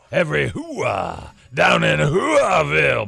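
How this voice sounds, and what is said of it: Over-the-top Al Pacino impression. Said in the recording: “the over-the-top Al Pacino impression, because this is not overdone”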